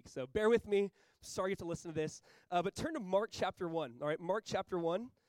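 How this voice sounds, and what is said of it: Weak, worn-out voice. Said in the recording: “You can tell my voice is pretty weak. I was sick last Saturday. After last Sunday, it was just gone Monday. And so it's the best it's been all week.”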